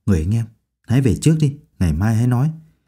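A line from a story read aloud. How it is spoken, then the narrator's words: Soft coaxing. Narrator (Vietnamese): Đỗ Ninh khẽ khuyên nhủ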